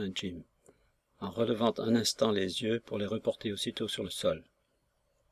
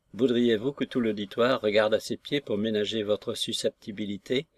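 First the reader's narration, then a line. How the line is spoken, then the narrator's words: Somewhat curt retort. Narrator (French): ripostai-je un peu sèchement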